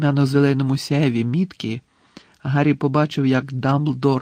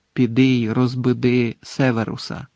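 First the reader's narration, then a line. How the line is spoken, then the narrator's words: Quiet, clear command. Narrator (Ukrainian): Тихо, але чітко звелів Дамблдор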